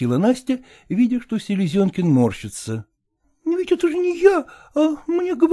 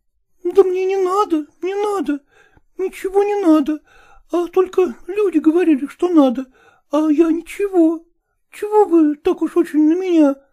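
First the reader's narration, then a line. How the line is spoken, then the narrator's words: Frightened speech. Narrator (Russian): испуганно проговорила Настя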